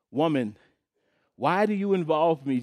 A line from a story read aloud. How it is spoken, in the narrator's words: Jesus replied